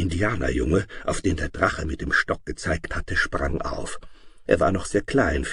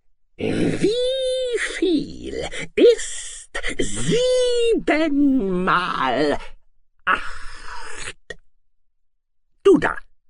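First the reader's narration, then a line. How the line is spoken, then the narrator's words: Angry monster shriek. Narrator (German): erbost, plötzlich kreischte das Ungeheuer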